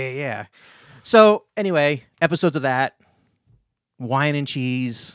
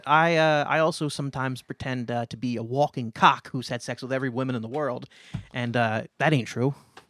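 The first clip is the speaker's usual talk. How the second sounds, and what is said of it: Put-on New York accent. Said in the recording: “Why do I have a New York accent?”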